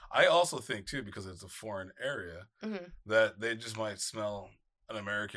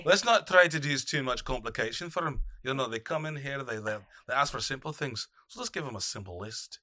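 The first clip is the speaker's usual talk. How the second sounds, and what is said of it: Put-on Irish accent. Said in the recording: “I'm going to try to do my accent. ... That was really good. ... He doesn't look Dublin.”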